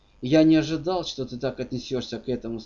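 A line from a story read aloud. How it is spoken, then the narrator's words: Slightly cold. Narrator (Russian): сказал он немного холодно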